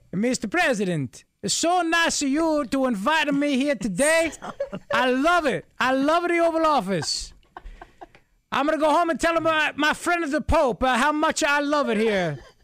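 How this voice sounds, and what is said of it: Exaggerated comic Italian accent. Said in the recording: “Every Italian accent I do is Father Guido Sarducci.”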